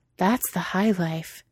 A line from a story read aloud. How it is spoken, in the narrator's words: Cheeto had breathed out